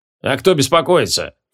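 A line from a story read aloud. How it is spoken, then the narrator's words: Scoffing snort. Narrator (Russian): фыркнул адмирал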